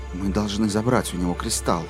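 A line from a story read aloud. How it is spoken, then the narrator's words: Whispered. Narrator (Russian): прошептал Алан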